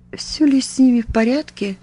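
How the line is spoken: Trembling, tearful voice. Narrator (Russian): дрогнувшим голосом повторил он, и на глаза его навернулись слезы

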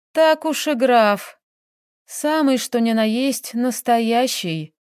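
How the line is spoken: Heavy sigh. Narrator (Russian): тяжело вздохнула Таисия

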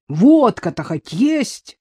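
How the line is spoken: Angry roar. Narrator (Russian): взревел, побагровев рассерженный Терехов

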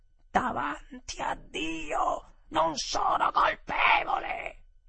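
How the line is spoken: Sudden terrible shout. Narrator (Italian): mia moglie, tutta ad un tratto, gridò con una voce terribile

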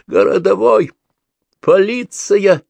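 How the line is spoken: Sobbing shout. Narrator (Russian): рыдающим голосом закричал союзник

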